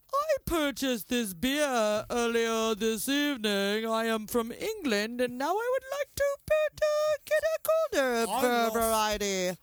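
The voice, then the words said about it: Put-on accent. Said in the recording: “I don't know what accent I'm doing.”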